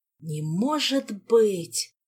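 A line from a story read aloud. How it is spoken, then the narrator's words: Groaning. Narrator (Russian): простонал бедный Макс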